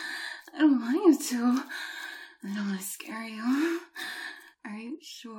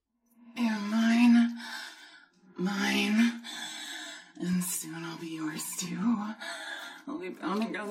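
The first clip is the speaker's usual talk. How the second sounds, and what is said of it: Menacing demon character voice. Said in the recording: “demon voice”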